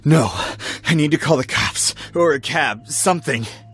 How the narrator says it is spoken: gasped

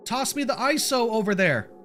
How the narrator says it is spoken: I shouted back to Sho

